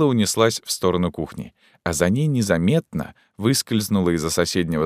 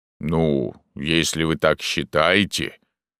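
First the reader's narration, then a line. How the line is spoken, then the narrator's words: Surprised drawl. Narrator (Russian): протянул удивленный Порт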